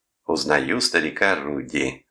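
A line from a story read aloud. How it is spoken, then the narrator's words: Mocking. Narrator (Russian): насмешливо сказал Томас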